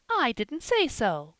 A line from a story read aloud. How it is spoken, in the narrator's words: cried Polly, starting up